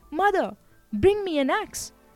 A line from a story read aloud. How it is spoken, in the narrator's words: he called out